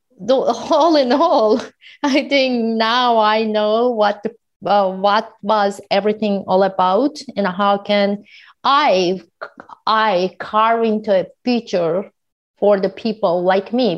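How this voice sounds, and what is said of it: Very heavy foreign accent. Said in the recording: “I have a very heavy accent that is not very common in the educated world”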